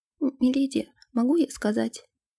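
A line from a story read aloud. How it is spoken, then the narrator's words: Whisper. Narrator (Russian): прошептала Нэнси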